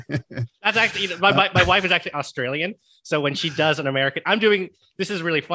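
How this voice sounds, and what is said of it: Usual voice. Nothing is said of it.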